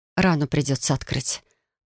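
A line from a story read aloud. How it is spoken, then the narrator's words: Hoarse, slurred rasp. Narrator (Russian): прохрипела я, с трудом ворочая языком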